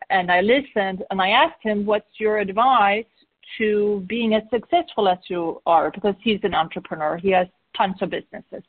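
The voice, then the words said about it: Swedish accent. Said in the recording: “I'm Swedish, by the way ... which is why I have an accent.”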